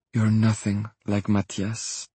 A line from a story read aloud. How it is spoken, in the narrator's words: she whispered